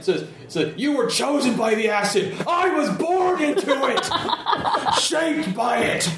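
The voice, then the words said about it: Bane villain voice impression. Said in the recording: “doing your best Bane impression.”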